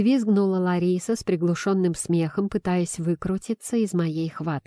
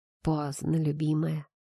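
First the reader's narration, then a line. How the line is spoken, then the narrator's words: Purring, hoarse. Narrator (Russian): Проурчав, хрипло добавил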